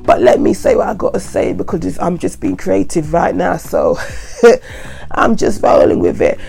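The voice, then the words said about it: Croaky voice from a head cold. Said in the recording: “my voice sounds a bit funny, it's because I've got a head cold, and it's very croaky right now”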